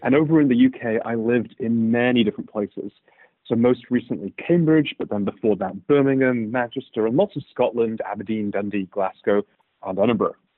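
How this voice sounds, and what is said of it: British accent. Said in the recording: “if you couldn't tell already from my accent, in the United Kingdom”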